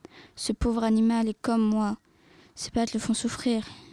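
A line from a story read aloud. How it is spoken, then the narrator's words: Old woman sighing. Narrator (French): soupira grand-mère Li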